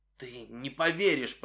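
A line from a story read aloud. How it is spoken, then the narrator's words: Hoarse rasp. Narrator (Russian): прохрипел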